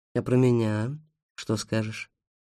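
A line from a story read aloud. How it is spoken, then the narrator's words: Plain. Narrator (Russian): спросила ведьма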